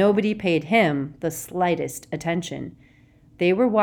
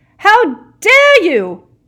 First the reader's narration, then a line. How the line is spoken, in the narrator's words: the figure shouted as she ran